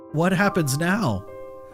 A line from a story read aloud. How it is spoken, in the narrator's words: Larry asked, his voice shaking slightly